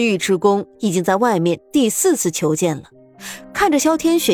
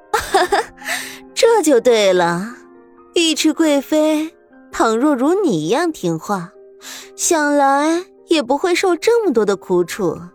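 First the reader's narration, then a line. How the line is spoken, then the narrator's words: Laughing. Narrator (Chinese): 萧天雪笑道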